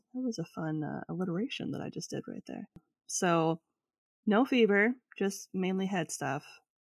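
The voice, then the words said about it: Scratchy voice from a cold. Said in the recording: “I have a cold ... my voice is a little scratchy”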